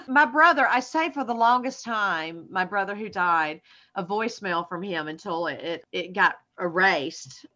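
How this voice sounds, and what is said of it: Southern American accent. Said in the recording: “you think I have a Southern accent... To my family, they think I have lost my accent”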